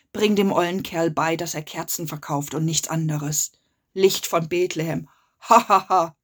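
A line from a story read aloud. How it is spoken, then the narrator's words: Long laughter. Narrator (German): lachte, bis er endlich aufhörte zu lachen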